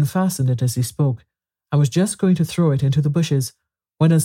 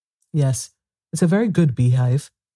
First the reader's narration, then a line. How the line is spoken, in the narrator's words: the knight said in a discontented tone